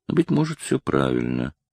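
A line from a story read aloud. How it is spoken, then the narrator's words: Muttered. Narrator (Russian): пробормотал он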